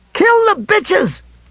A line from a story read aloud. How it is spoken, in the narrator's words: Pickering screamed